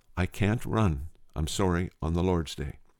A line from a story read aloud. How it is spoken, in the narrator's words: He replied quietly